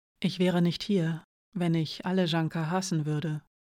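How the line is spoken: As gently as possible. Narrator (German): sagte sie so sanft, wie sie vermochte

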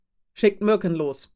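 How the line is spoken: Bellowed command. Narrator (German): befahl laut brüllend

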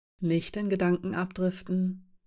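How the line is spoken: Quiet warning. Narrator (German): mahnte Kamira leise

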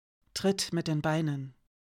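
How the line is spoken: Calm composed voice. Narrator (German): Hirayas Stimme war so ruhig und gefasst, als hätte sie Vadim nicht gerade die Kehle durchgeschnitten

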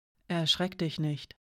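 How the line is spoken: Quiet. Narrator (German): sagte sie leise zu Yanka

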